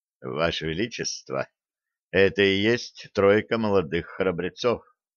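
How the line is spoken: Quiet. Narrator (Russian): Шорна негромко произнес

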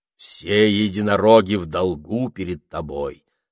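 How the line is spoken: Stern menacing king. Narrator (Russian): сказал король, грозно сверкая глазами

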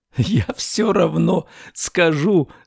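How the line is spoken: After laughter, speaking. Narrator (Russian): сказал он, отсмеявшись

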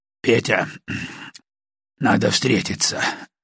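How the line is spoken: Muffled voice. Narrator (Russian): глухо проговорил

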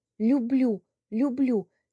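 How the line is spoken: Dazed, helpless babbling. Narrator (Russian): лепетал я, как потерянный

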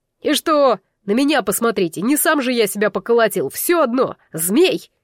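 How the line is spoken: Furious unrelenting yell. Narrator (Russian): яростно заорал Байнар, не успокаиваясь

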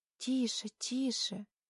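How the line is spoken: Distant whisper. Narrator (Russian): шепот Тани доносится словно из параллельной вселенной

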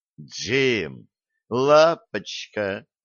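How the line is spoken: Astonished drawl. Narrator (Russian): протянул пораженный Блад

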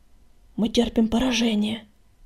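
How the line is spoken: Hoarse rasp. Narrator (Russian): прохрипел он

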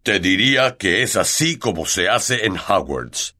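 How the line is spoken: Growling. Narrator (Spanish): gruñó Hagrid

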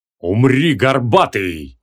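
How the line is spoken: Menacing thunderous roar. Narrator (Russian): грозно прогремел наступающий паладин

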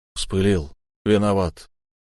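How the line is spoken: Forced out reluctantly. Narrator (Russian): я выдавил из себя

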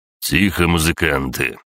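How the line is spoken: Stern curt command. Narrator (Russian): строго бросил Сашка

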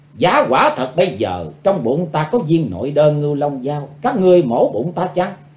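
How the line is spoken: Furious, chilling question. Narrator (Vietnamese): Chấm dứt trận cười kinh dị, Tần Mỹ Nương quát, căm hờn, rồi hỏi một câu rợn người

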